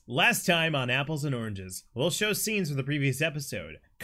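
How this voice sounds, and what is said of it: Announcer voice. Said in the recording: “Announcer voice.”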